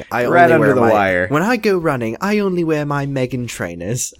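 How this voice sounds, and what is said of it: Put-on British accent. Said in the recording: “I said that in a British accent”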